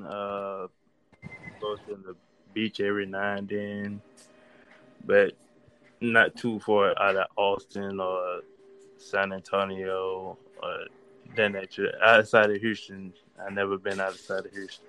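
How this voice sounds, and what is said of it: Southern Texas accent. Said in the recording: “Said Houston like a country boy. You said Houston. ... I love Southern accents because we don't think we have one, but we really do. You just said Houston.”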